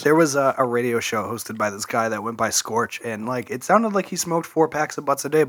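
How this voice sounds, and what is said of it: Hoarse, strained laryngitis voice. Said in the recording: “I think laryngitis. I can't really talk.”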